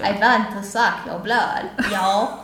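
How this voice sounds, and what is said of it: Put-on southern accent. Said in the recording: “southern accent”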